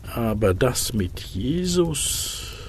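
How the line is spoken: Murmuring. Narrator (German): murmelte er

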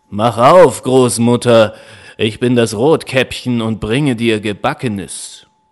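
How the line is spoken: Wolf calling out. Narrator (German): der Wolf rief

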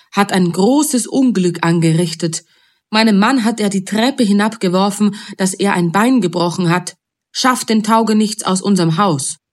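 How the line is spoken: Called out. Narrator (German): rief

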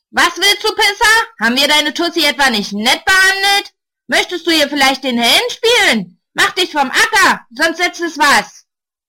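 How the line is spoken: Roaring. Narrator (German): Einer brüllt

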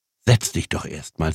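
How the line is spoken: Plain. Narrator (German): sagte die Frau

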